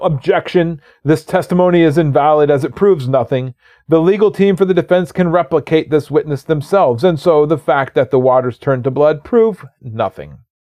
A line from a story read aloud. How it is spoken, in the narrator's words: The lawyers for the defense yell